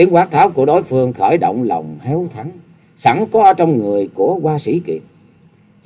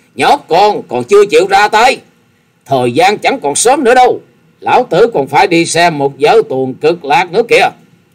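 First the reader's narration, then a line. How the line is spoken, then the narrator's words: Impatient old man shouting. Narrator (Vietnamese): lão già áo xanh không đợi được hét lên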